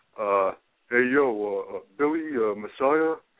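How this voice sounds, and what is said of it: Imitates another person's voice, badly. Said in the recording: “I'm doing a really bad John Zanning impersonation.”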